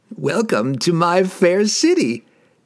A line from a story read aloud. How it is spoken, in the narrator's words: he laughed wryly